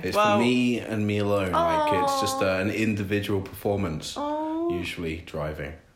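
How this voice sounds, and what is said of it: English accent. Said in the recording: “I probably have too much of an English accent”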